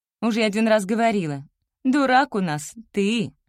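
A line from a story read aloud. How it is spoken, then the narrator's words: Snorting. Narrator (Russian): фыркнула Галя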